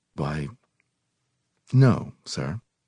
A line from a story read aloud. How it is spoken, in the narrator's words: I said nervously